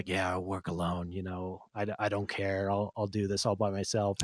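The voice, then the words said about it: Imitates Batman's voice. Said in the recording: “That's a good Batman impression.”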